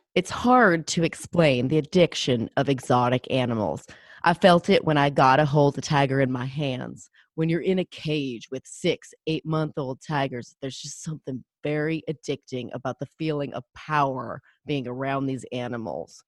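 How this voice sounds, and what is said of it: Imitates another person's voice, southern-ish accent. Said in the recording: “my Rick Kirkman impression ... that was good ... I can't tell where his accent is from, sort of south”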